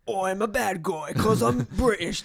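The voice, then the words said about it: Deliberately bad British accent. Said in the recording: “That's my terrible accent, British accent.”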